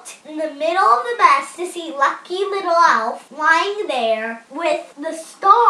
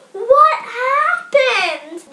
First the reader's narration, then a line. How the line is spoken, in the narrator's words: shouted